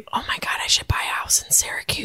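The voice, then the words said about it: Whispering. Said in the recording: “I don't know why I'm whispering.”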